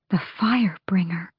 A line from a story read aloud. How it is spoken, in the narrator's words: someone whispered down the battlements